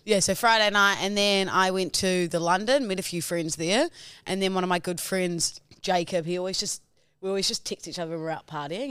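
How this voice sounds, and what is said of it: Raspy, partly lost voice. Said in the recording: “I've also partly lost my voice. If you can tell there. ... Very raspy.”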